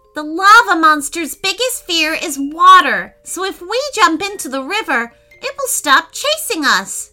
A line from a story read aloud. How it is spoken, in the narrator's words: shouted Declan